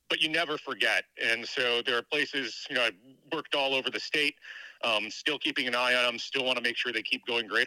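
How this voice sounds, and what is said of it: Mild Canadian accent. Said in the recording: “Do I detect a Canadian accent with you? ... I keep hearing you say the word out as out. ... Oot. ... I can hear Canada.”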